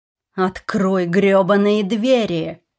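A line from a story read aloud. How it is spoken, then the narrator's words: Growling. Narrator (Russian): зарычал Джейкоб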